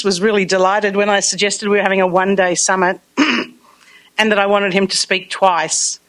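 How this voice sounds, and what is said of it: Australian accent. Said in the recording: “I do have an accent, I'm told... I have an Australian accent”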